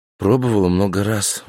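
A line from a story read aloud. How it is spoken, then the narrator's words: Sighing. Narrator (Russian): вздохнула Няша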